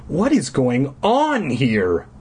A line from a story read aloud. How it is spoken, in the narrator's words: cried